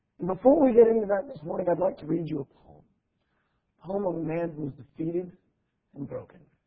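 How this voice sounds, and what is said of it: Hoarse, sick-sounding voice. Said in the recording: “are wondering in the back of their mind, are you sick? ... I've not lost my voice.”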